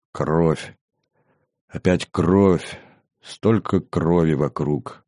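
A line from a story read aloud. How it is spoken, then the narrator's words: Added with heavy sigh. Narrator (Russian): тяжело вздохнув, добавил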